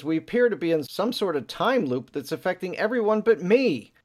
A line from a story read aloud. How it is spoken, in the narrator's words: screams and she says